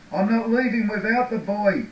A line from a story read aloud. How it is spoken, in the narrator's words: he yelled